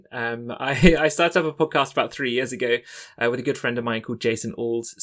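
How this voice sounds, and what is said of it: Southern English accent. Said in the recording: “despite the very southern English accent.”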